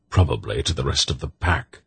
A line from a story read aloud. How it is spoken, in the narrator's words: the old man grunted